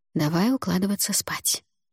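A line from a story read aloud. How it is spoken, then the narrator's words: Whispered suggestion. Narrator (Russian): шепотом предложила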